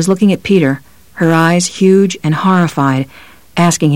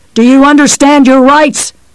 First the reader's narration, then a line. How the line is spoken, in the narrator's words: The cops screamed